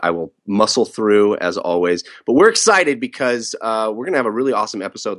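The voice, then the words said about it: Sick, odd-sounding voice. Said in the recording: “I'm a little sick. I got the strep... forgive me if you hear weird noises coming from me or if my voice sounds odd”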